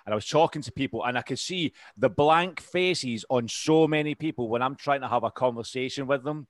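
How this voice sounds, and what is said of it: Strong-ish Scottish accent. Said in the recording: “It's just like a Scottish noise ... I've still got this strong-ish accent”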